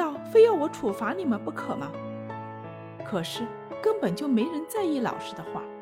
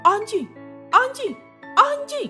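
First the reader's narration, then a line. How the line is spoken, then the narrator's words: Trembling, near tears. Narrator (Chinese): 他的声音颤抖，似乎快哭了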